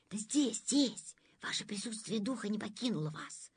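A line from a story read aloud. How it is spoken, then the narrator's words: Whispering. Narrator (Russian): Зашептал министр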